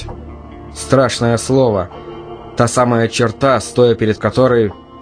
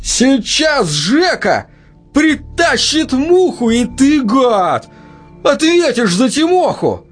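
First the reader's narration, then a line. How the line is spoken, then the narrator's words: Yelling again. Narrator (Russian): Заорала вновь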